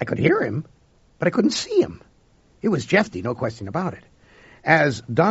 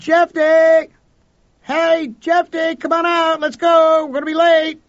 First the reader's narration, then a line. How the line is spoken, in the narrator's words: I cupped my hands around my mouth and I yelled